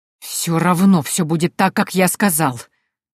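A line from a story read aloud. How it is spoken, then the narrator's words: Hiss. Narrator (Russian): прошипел брат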